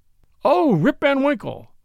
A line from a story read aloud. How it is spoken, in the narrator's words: exclaimed two or three